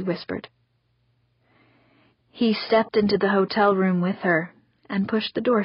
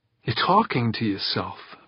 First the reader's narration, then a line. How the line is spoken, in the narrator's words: Victor Zacharias muttered